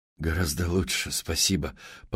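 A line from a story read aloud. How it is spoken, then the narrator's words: Mumble. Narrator (Russian): пробормотал Мэтт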